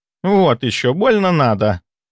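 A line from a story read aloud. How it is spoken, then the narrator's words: Unimpressed snort. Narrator (Russian): фыркнула Шпилька, не оценив шутку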